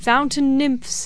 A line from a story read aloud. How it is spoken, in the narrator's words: he cried